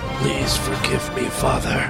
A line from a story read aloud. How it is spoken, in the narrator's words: Harvey took one deep breath and whispered